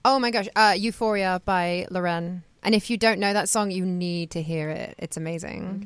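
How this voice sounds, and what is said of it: British accent. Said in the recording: “I could just listen to you talk all day, by the way ... Like any British accent is because it's... love it.”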